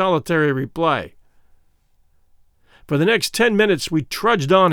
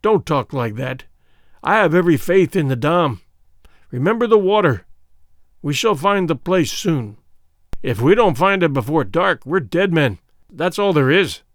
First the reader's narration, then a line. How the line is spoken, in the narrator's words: groaned Sir Henry